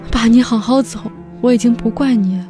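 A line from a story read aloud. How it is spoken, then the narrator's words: Soft, soothing, frightened. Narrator (Chinese): 我惊恐地看着不断涌出的血水，像哄孩子一样轻声地说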